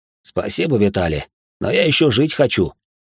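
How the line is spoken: Uncle snorting. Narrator (Russian): хмыкнул дядя

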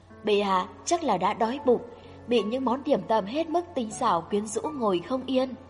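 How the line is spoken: Soft laughing speech. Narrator (Vietnamese): Hoàng quý phi khẽ cười

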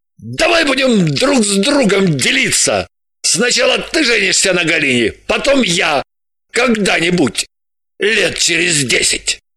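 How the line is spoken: Indignant proposal. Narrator (Russian): поразился вопиющий несправедливости Граблин и предложил

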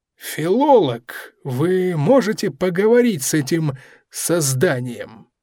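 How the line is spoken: Short alien, uncertain. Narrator (Russian): Филолог, коротышка со звезды Ко из центрального скопления, неуверенно ответил

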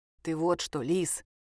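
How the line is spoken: Uncle whispering. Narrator (Russian): шепнул ей дядя Женя

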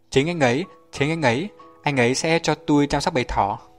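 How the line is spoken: Happy, smiling. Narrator (Vietnamese): Lenny sung sướng mỉm cười

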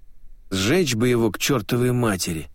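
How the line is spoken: Grumbled. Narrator (Russian): проворчал кто-то

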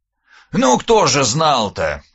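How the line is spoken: Snorting reply. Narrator (Russian): хмыкнул в ответ Скуратов-Бельский

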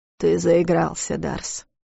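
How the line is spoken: Quiet. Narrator (Russian): тихо сказал тот

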